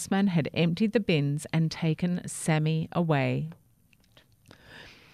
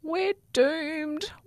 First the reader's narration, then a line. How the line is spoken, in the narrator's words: wailed a plastic bag